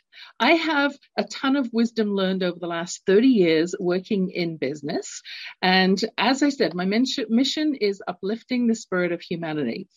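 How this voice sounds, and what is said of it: London English accent. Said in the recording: “growing up, London, England. You can tell from my accent, I'm not born in North America”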